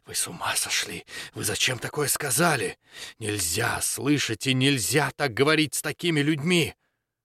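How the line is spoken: Frightened whisper. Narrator (Russian): светочей зашептал страшным голосом

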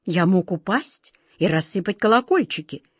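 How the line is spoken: Furious hiss, king. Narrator (Russian): в ярости прошипел король

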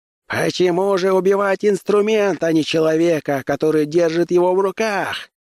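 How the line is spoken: Shouted. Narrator (Russian): крикнул он

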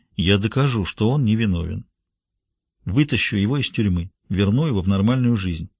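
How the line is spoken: Quiet. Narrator (Russian): Райм тихо произнес

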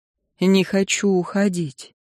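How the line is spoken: Sighing quiet confession. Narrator (Russian): Он вновь вздохнул и тихо признался

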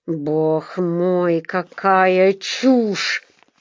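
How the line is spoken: Nearly growled. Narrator (Russian): почти прорычал он

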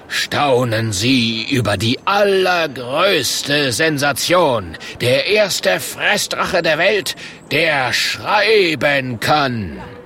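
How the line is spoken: Calling out. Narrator (German): ruft der Murk

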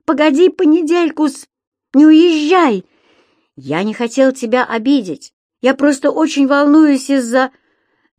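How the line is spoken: Shouting. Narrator (Russian): крикнул

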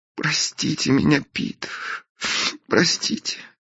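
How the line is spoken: Sobbing, pleading. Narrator (Russian): всхлипнула Белинда, умоляюще

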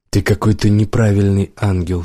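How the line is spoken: Plain. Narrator (Russian): сказала Мика

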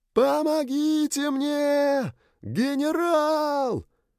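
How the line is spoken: Shouting. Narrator (Russian): кричали

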